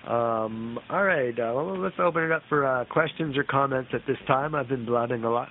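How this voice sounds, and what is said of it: Slightly hoarse voice. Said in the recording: “You can probably hear it in my voice. It's the cold coming out. I'm starting to get a little bit hoarse”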